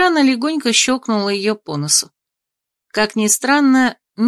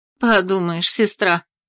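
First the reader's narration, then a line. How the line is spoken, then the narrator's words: Snorting. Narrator (Russian): фыркнула подруга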